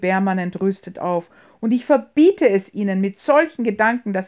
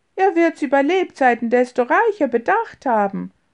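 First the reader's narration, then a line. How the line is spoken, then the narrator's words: Laughing interruption. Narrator (German): unterbrach ihn James lachend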